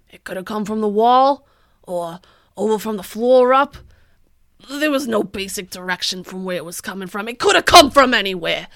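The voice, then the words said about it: Stereotypical landlord voice, Pennsylvania-like accent. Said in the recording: “that's a great Pennsylvania accent ... that is 100% what all landlords sound like ... That's a pretty spot-on landlord voice ... The accent of the landlord.”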